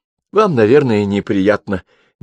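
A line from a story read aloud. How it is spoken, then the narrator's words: Nervous laugh. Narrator (Russian): нервно рассмеялась она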